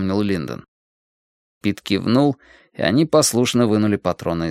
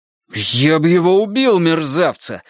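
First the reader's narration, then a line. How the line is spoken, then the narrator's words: Roared. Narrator (Russian): взревел Джейкоб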